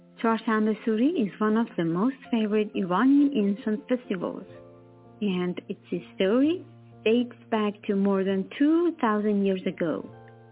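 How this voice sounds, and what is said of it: Persian accent. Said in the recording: “the narrator has a Persian accent”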